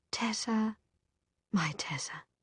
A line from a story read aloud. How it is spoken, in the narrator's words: he said in his soft voice, as lulling as his violin